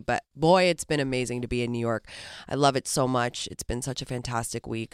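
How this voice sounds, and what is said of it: Sick, cold-affected voice. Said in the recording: “Excuse my voice today, guys, I've been struck down with a lurgy”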